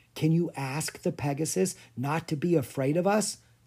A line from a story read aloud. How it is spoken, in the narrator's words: Clara whispered